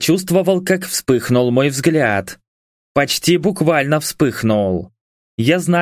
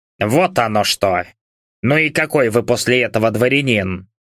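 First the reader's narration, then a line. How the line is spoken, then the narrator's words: Scornful snort. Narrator (Russian): Усатый фыркнул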